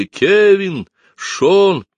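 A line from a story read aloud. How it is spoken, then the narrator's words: Everyone shouting continuously. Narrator (Russian): Все непрерывно кричали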